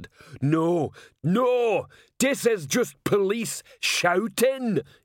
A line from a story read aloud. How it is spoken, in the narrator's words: yelled Detritus